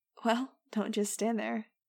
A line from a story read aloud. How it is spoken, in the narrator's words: said with a laugh